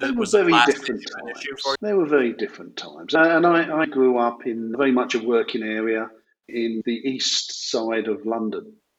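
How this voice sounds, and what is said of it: East London accent, not Oxford. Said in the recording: “your accent is not an Oxford accent... from Upminster in East London”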